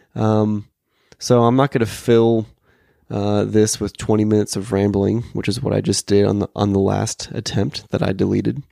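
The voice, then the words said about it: Hoarse voice. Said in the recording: “a week of VBS is why my voice is hoarse.”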